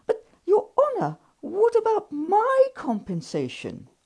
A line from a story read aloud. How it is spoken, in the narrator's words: I cried